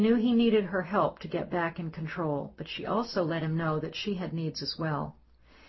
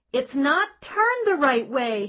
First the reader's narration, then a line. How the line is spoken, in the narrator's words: he screamed